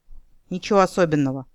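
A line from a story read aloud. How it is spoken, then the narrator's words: Reluctant grumble. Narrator (Russian): буркнул он неохотно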